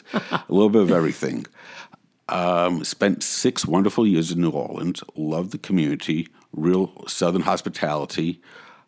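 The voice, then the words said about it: Mixed New Orleans and Brooklyn accent. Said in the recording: “That must be your accent, mixed with the Brooklyn accent. ... I have a bastardized accent.”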